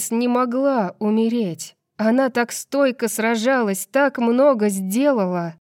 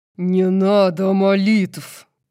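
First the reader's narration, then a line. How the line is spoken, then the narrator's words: Growled. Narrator (Russian): прорычал Хант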